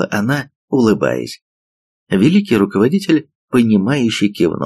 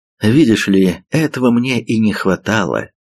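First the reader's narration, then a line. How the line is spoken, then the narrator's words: Sigh. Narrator (Russian): вздохнул он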